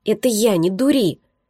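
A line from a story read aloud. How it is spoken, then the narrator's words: Involuntary hiss. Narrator (Russian): Невольно зашипела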